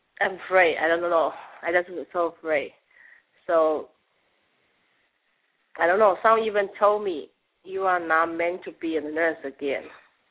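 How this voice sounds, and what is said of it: Very thick accent. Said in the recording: “You have a very, very thick accent. I do like it. ... You have an interesting accent.”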